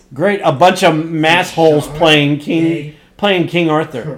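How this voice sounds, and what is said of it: Usual voice. Nothing is said of it.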